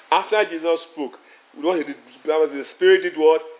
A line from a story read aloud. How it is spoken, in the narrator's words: He cried